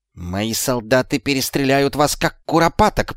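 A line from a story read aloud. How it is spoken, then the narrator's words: Hiss. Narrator (Russian): прошипел Шлис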